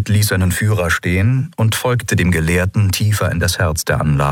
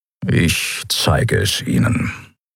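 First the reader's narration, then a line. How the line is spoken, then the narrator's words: Grumbling. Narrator (German): brummte er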